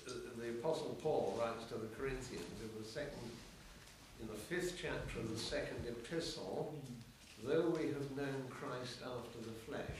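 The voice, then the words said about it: Voice in poor condition. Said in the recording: “my voice is not good, I know”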